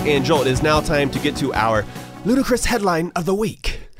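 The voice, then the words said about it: Imitates a storybook character's voice. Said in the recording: “That was my Harry Potter voice.”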